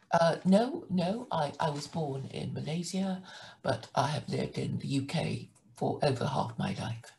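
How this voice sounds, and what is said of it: British English accent. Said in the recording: “from your accent, I'm going to narrow it down to two places. One is Australia, or two, some part of the UK ... I love your guys' accents over there”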